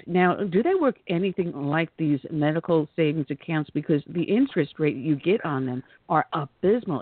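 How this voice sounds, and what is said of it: New York accent. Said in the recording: “as you can tell from my dialect, I'm a member of the New York State, now part of South Carolina, former New Yorker”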